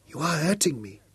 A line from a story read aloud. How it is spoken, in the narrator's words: whimpered